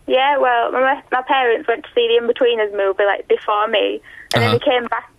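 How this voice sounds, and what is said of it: Halifax accent. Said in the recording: “I love your voice ... I love a Halifax accent. It's real good.”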